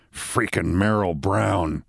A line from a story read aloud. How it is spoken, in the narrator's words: He muttered